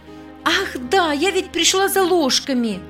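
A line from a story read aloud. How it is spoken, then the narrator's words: Joyful exclamation. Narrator (Russian): Воскликнула радостно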